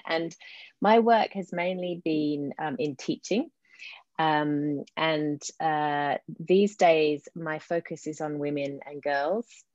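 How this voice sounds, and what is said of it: Slight English London accent. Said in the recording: “you might hear in my accent, I've got a bit of an English accent ... I grew up in London”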